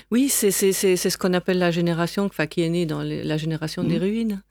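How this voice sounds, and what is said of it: German accent speaking French. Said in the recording (French): “on entend à votre accent, vous êtes allemande, enfin vous êtes d'origine allemande”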